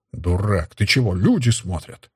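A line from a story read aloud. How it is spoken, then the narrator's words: Frightened muttering. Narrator (Russian): забормотал перетрусивший брюнет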